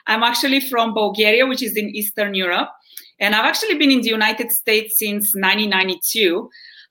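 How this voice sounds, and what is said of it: Bulgarian Eastern European accent. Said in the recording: “I don't sound American. I don't sound Southern. ... I know my accent always gives me away ... my accent has stuck with me”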